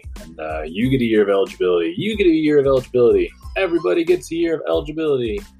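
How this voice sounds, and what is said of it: Imitates another person's voice. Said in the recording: “best impression of Oprah Winfrey”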